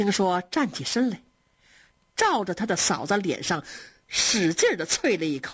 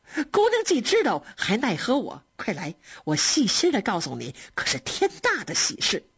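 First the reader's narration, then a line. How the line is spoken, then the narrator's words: Laughing. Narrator (Chinese): 他嫂子笑着说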